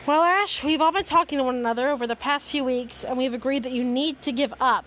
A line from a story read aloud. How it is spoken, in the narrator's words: Brock said